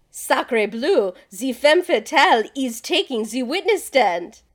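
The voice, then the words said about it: Put-on French accent, not very good. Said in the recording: “I just really wanted to do a French accent. It's not very so good.”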